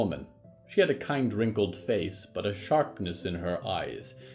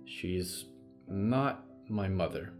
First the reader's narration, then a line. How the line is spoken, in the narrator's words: she said quietly